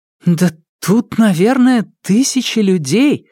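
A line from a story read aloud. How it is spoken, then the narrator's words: Astonished exclamation. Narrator (Russian): воскликнула Нелит, раскрыв рот от удивления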